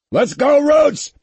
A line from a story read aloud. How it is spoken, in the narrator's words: yelled